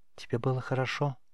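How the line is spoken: Quiet question. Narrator (Russian): тихо спросила Гульзар

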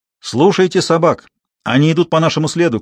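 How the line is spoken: Shouted. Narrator (Russian): крикнул Гектор

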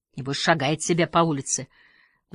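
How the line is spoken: Sighing. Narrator (Russian): вздохнул Халварсон

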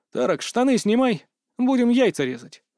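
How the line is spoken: Calm. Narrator (Russian): спокойно сказал я

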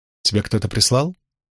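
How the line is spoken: Cold question. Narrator (Russian): холодно спросила Авиенда

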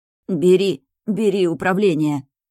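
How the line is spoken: Hoarse rasp. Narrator (Russian): хрипит Раш

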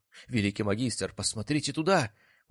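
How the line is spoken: Exclamation. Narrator (Russian): воскликнул адъютант

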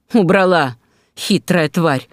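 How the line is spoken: Panting growl. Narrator (Russian): рычал он, тяжело дыша

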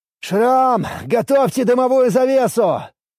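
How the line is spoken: Shouted. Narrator (Russian): прокричал я

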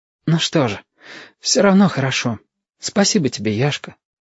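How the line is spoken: Brave, calm. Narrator (Russian): Радости поубавилось, но Стасик сказал храбро и спокойно

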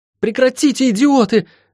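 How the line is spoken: Shouting. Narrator (Russian): крикнула Лайон

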